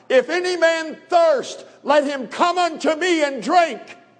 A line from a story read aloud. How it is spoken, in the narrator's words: Jesus lifted up his voice and he cried